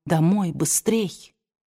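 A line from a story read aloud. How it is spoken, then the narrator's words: Quiet. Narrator (Russian): Она негромко сказала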